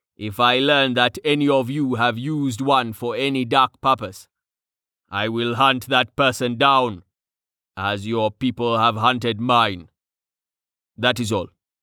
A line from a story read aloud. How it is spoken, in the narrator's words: rumbled ominously